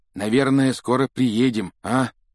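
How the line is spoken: Hoarse croak. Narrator (Russian): прохрипел Рон еще несколько часов спустя

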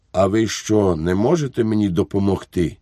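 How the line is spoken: Weak, hopeless voice. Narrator (Ukrainian): слабким, безнадійним голосом сказав

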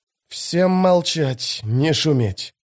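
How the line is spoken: Hissed command. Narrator (Russian): прошипел Кальп

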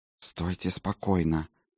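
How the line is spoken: Hiss through teeth. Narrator (Russian): сквозь зубы прошипела Клара

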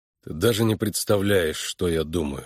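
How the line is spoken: Plain. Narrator (Russian): ответил он

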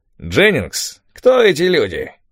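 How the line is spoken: Loud creaky voice. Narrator (Russian): спросил он громким скрипучим голосом

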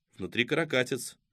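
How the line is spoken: Snort. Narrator (Russian): Кузьма хмыкнул

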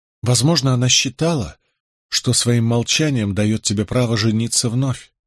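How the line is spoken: Gentle objection. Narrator (Russian): мягко возразила Изабелла

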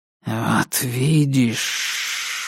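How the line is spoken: Hissed. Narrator (Russian): прошипел он

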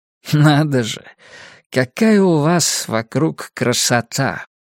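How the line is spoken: Slight lisp. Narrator (Russian): Красота прозвучала как крошота, но вообще шепелявость была очень слабая, почти незаметная

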